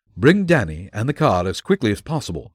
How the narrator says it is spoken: cried

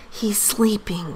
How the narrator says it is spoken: whispered Mama

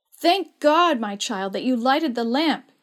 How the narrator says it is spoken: cried

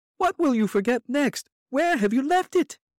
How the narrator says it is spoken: cried from the head of the stairs

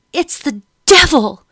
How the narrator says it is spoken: Madam screamed

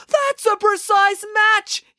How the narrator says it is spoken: yelled Animesh

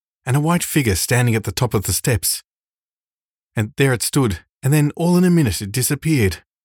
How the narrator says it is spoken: gasped John

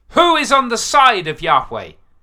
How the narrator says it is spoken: yelled

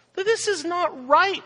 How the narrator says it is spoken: we exclaimed

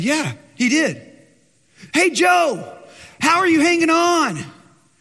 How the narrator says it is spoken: he screeched back just very, you could barely hear him

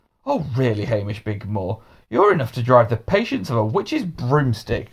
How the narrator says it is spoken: grumbled Mr

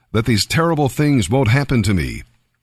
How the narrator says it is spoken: Simon exclaimed

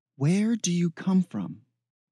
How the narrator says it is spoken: Zine asked urgently

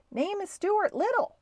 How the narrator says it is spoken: called Stuart at the top of his lungs

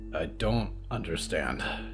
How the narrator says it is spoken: Hector muttered

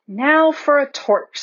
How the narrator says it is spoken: said Peter

